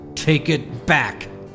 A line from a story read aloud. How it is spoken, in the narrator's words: said angrily